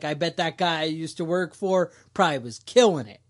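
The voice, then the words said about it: Put-on New York City accent. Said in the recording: “that was my New York City accent ... Or maybe it was my Guyanese accent”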